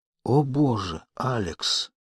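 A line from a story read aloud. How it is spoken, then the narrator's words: Breathed out. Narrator (Russian): выдохнул Сэмпсон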